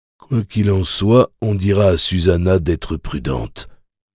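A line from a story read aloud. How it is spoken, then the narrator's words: Murmured. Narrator (French): murmura Roland à Jake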